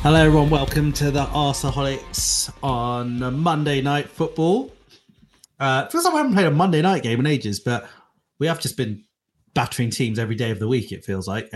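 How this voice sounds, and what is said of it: Nasal voice. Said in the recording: “It's kind of nasal today because I've got a bit of a cold.”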